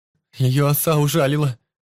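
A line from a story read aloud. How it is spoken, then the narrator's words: Tearful speech. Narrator (Russian): сказал сквозь слезы Мишка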